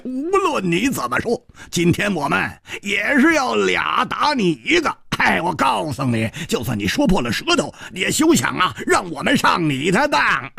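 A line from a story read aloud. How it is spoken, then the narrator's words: Laughing loudly. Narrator (Chinese): 蝴蝶花大笑着说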